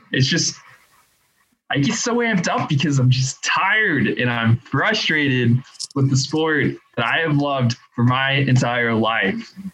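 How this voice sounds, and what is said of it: Frustrated, worked-up voice. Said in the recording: “I can hear the frustration in your voice”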